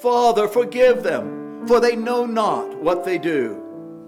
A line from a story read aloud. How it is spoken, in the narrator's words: In his final moments, he cried